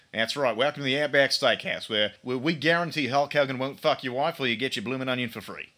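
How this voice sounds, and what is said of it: Put-on Australian accent. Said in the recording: “That is a damn impressive Australian accent.”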